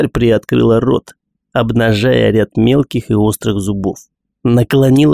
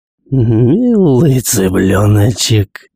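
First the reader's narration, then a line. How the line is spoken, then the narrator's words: Creature purring. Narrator (Russian): Промурлыкала тварь голосом Джо Салливан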